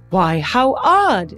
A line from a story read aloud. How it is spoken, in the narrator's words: the woman, oblivious, exclaimed